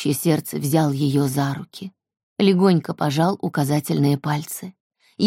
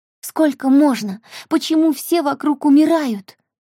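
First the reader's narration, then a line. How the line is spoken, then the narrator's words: Sobbing. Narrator (Russian): рыдала Эльса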